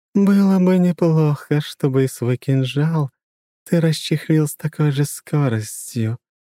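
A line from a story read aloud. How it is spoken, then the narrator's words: Intimate purr. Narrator (Russian): промурлыкала ему в губы аспида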